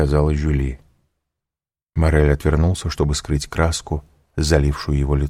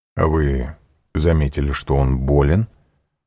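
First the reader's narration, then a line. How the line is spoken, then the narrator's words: Plain. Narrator (Russian): спросил граф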